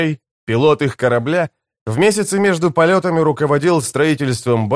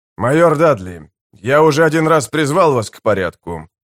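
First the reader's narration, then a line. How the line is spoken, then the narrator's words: Calm. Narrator (Russian): спокойно сказал Дивол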